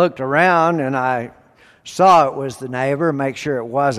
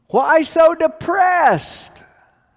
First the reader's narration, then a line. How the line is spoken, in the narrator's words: he shouted